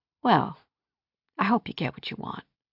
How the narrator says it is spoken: she whispered

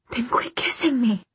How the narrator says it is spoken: she gasped

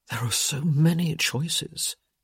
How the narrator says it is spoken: he said huskily

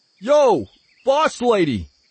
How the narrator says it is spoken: He called out

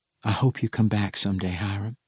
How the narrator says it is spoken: she whispered

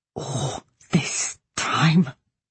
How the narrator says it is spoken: he says through gritted teeth

